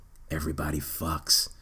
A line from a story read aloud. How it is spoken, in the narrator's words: He whispered